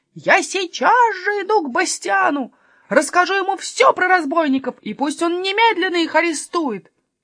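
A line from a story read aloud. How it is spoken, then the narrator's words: Butcher shouting. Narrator (Russian): Мясник закричал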